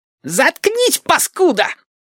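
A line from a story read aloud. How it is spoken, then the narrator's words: Shrill squeal. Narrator (Russian): взвизгнул Мухобой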